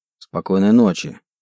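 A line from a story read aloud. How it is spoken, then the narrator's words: Grumbling. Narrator (Russian): буркнул я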